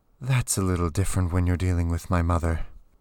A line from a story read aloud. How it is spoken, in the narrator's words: Alextra said with a sigh